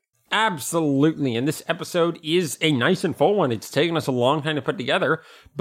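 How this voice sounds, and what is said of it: Strained, worn-out voice. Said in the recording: “my voice is a little bit shot right now from repeatedly doing my Yoshi impression.”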